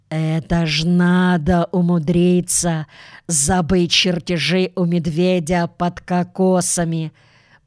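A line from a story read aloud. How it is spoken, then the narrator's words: Hiss. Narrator (Russian): прошипела мисс Флинт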